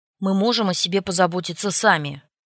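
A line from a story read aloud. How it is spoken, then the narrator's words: Sharp, curt. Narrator (Russian): резко отрезал парень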